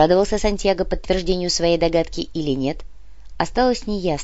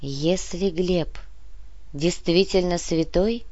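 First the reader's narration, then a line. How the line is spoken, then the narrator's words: Sighing. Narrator (Russian): вздохнула Яна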